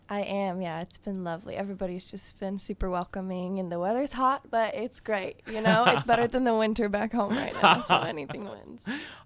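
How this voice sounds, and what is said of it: American Southern accent, Nashville. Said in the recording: “if you can't tell from the accent, you're here from Nashville.”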